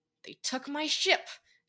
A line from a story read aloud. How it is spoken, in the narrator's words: muttered